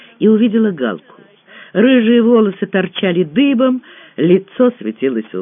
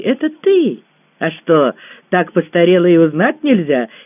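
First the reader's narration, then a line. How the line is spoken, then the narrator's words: Giggle. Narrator (Russian): хихикнула Галя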